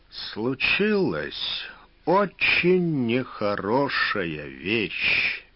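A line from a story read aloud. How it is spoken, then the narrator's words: Slow. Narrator (Russian): медленно сказал Фогель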